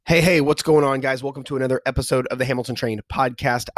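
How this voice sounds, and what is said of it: Congested voice, cracking like puberty. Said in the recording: “My voice sounds a little bit different today ... fighting a little bit of allergy stuff ... if it sounds like I am going through a very hard round of puberty ... my throat's not hurting. My voice just sounds a little bit different.”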